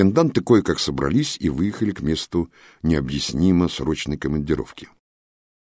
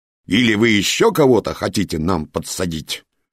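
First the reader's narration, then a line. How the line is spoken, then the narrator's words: Impatient bark. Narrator (Russian): Батальонер, заслуженный полковник, не дождался вразумительного ответа и рявкнул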